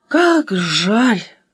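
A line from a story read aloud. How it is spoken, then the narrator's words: Sigh. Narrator (Russian): вздохнула Аля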